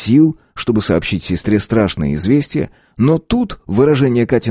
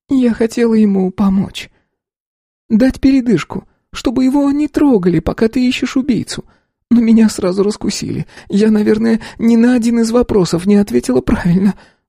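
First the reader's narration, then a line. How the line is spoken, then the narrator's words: Sad, smiling voice. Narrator (Russian): грустно улыбнулась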